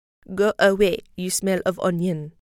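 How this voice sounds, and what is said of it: Put-on French accent. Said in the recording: “Good French accent, don't you guys think?”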